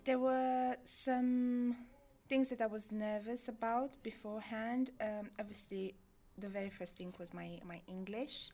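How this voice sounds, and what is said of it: Strong Eastern European accent. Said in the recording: “I still have a very strong accent from East Europe”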